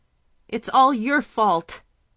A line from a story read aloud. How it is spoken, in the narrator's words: the woman screamed